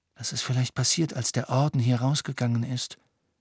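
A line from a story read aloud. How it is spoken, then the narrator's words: Quiet reply. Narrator (German): erwiderte Ron leise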